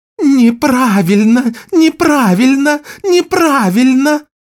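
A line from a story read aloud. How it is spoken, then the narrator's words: Shaman's singsong chant. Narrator (Russian): Нараспев повторял шаман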